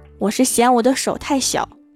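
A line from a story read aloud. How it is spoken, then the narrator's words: Cold. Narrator (Chinese): 郭大嫂冷冷地说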